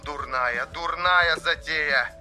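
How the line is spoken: Crackling, broken radio voice. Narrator (Russian): Хрипы рации вырывали частицы слов

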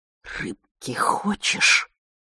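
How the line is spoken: Distorted hissing whisper. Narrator (Russian): шепот, искаженный, свистящий

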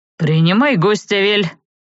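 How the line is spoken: Deep bass voice. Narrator (Russian): пробасил он

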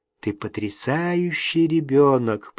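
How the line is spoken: Whispered. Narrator (Russian): прошептала

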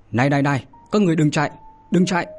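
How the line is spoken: Hurried loud shout. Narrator (Vietnamese): Trường Sinh vội vàng hét lớn

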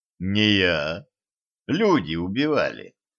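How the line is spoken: Calm correction. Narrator (Russian): спокойно поправил Кощей

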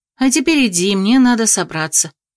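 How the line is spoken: Grumbling. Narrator (Russian): проворчала я

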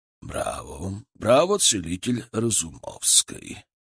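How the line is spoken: Strong clear voice. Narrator (Russian): Его голос был совершенно другим, сильным, чистым, без малейшего намека на хрипоту или слабость

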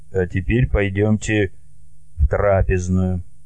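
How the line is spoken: Quiet, after long pause. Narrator (Russian): Царь лишь после большой паузы сказал тихо

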